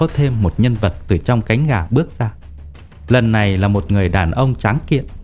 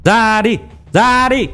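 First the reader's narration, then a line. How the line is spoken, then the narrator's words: Repeated loud shouting. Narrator (Vietnamese): luôn miệng hét to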